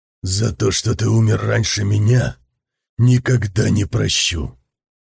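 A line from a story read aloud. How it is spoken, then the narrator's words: Whispered. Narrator (Russian): прошептал Лунге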